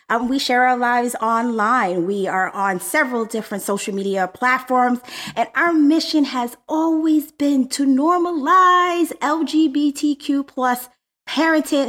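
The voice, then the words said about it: Energetic radio announcer voice. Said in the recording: “you brought in a little radio announcer voice... And face... And energy.”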